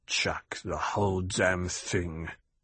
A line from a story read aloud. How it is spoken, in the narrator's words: Idaho shook his head, mumbled